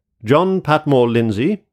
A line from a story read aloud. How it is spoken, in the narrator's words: I mentally exclaimed